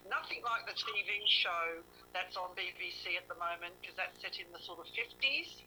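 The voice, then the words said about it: Australian accent. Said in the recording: “I know I've got a dodgy accent. I've got an Aussie accent.”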